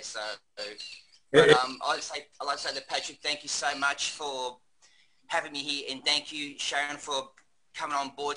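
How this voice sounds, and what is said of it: Australian accent. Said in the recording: “I could kind of tell that by your accent.”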